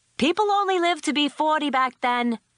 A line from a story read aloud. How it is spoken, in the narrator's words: Tess hollers back